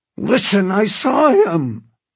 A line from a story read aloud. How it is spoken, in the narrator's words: he cried